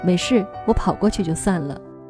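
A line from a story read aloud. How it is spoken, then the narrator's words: Giggling uncontrollably. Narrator (Chinese): 我止不住的傻笑，回复他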